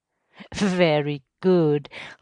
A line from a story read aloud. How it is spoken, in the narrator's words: laughed the superintendent